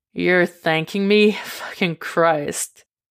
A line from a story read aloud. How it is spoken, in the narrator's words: he chuckles